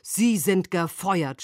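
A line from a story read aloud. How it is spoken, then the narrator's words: Shouted. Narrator (German): schrie er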